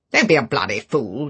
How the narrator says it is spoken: said Favell roughly

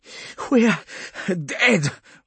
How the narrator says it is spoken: Vaughn was panting over the link

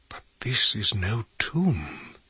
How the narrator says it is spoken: he whispered

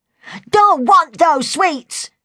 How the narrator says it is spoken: she suddenly yelled

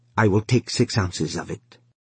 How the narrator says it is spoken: he said quickly

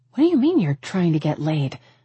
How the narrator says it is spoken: I gasped

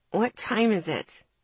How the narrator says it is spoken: I grumbled

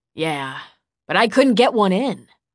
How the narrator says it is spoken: Reese grumbled

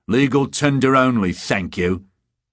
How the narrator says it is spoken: The beggar snorted into his beard in annoyance and shouted in a clear voice

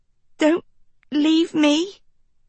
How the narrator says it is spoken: Kiko whimper

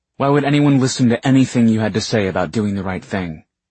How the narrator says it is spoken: Isabel snapped

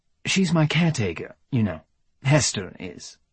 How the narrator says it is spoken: said clearly, in a crisp British accent

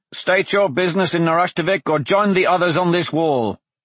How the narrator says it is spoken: the voice called out

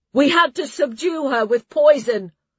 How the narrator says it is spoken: she called out

